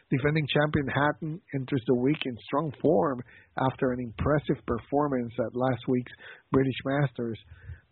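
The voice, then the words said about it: Strained voice, losing it. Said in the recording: “sorry about my voice, ... I'm losing it”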